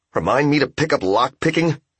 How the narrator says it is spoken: Yamura grunted

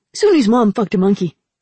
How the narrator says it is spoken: Ramsa said happily

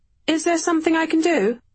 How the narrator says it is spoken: I called out

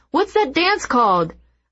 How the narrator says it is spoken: Jack shouts

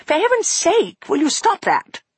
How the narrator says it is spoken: She snapped at him

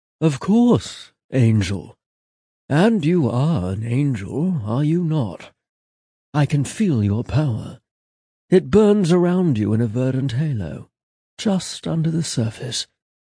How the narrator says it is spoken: Batiste said, damn near purring

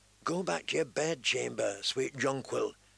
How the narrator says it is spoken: he whispered

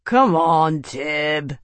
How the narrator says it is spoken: he slurred

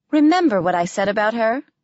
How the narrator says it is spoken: Priscilla asked cheerfully

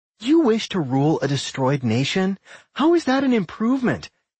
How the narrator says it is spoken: Nat laughed sarcastically

